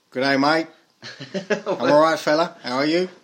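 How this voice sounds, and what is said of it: Put-on Australian accent. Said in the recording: “This is a guy from Down Under ... your accents are good, though”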